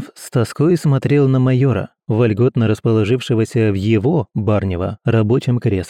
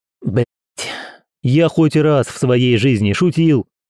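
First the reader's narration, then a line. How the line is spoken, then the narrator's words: Barked. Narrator (Russian): рявкнул Герман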